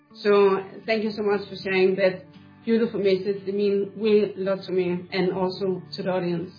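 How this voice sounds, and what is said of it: Emotional, wavering voice. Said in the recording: “I get so emotional every time when I'm talking about God ... As you also can hear, my voice is changing now.”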